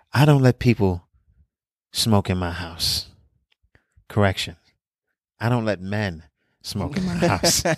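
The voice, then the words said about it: Soft, slow Todd Barry impression. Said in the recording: “that's a good Todd Barry impression too. Very soft spoken and slow like that.”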